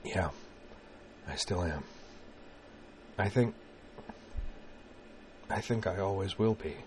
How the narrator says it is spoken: Corwin said in a whisper

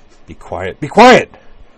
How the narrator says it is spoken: Utna snapped

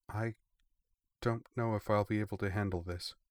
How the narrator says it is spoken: Iona said quietly

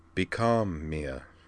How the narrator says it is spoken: he told her, in his soft, smooth voice

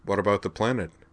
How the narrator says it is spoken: asked Miki

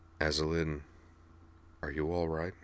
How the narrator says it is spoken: asked, his voice surprisingly gentle

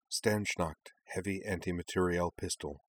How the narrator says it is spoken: the faintest of whispers said in the back of Kaname's head

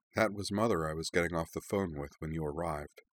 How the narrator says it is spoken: said Azana softly

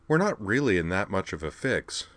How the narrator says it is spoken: observed calmly

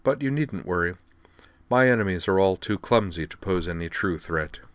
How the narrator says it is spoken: Amanda replied dryly

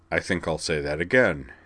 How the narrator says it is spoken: said dryly

